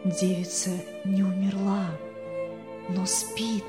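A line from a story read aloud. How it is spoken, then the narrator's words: Whisper in ear. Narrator (Russian): пастор шепнул ему на ухо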